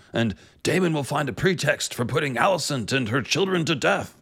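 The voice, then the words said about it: Otto Hightower voice impression. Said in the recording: “I lapsed into what is apparently my Otto Hightower accent.”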